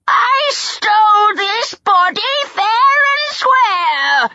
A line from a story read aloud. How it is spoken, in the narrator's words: she wailed